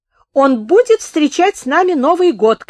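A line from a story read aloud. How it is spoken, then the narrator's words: Shouting. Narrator (Russian): крикнула Саша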